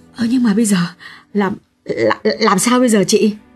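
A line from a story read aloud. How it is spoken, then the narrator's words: Frightened, tearful. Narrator (Vietnamese): Xuyến thấy lạnh toát cả người, nàng mếu máo nói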